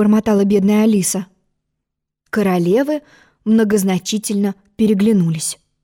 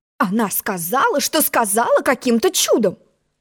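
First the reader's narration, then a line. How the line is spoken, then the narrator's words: Indignant. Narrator (Russian): возмущенно пожала плечами черная королева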